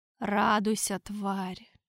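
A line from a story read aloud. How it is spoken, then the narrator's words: Whisper. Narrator (Russian): Прошептал Торквемада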